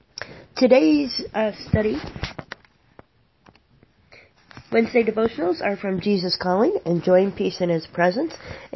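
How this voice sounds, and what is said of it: Slightly hoarse, strained voice. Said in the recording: “I have a little bit of a sore throat”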